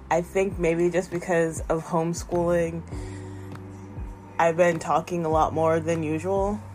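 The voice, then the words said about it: Worn-out, strained voice. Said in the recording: “my voice is not at 100%... my voice is kind of going”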